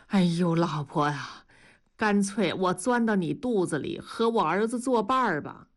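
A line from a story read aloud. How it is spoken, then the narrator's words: Sighing. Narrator (Chinese): 叹了口气说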